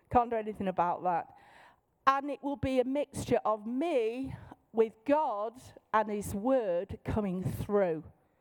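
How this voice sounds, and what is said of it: Manchester English accent. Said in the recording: “in my normal voice, in my accent. I'm from Manchester.”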